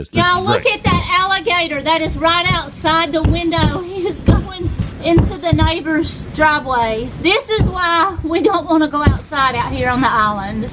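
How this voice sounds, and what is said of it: Strong Alabama accent. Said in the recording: “That is the greatest Alabama accent. That is pure, 100% real... That is a definitive Alabama accent.”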